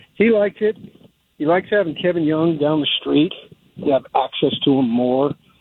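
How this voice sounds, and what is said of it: Slightly out of breath while walking. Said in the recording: “I'm walking here. That's why I'm a little bit out of breath”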